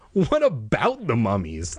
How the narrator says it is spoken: I managed to stammer

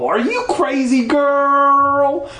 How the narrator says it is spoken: I shrieked

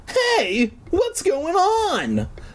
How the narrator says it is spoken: I cried, once again like a little bitch

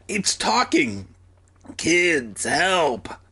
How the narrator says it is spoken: The snail moaned again

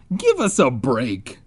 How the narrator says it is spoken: Ben groaned

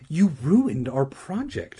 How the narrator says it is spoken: Regina cried

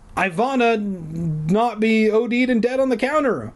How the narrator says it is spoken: I shouted her name

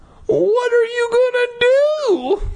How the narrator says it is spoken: I cried

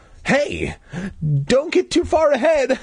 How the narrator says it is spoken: I cried

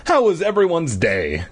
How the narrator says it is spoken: Dad asked cheerfully

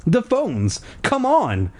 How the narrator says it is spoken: I cried

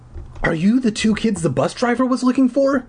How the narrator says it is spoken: He asked in a shrill, high voice

